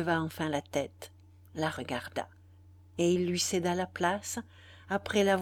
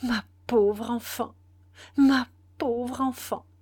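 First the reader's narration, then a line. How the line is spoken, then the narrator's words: Trembling stammer. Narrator (French): bégaya-t-il avec un grand tremblement de chaîne déracinée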